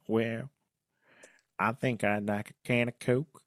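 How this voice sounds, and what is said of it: Put-on Southern North Carolina accent. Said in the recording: “Am I doing a good North Carolina accent? ... I think it's like a little bit Southern. I think probably close. ... I'm going for also more of a Velma than a North Carolina”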